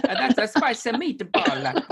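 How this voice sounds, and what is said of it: Italian cartoon chef accent. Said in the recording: “English accent is an Italian cartoon chef? ... Pretty good at accent.”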